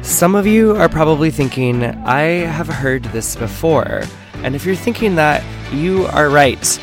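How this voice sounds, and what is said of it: Rough, hoarse voice. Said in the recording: “my voice is a little bit rough. ... my voice completely gave out, and I had laryngitis ... still recovering, as y'all can hear.”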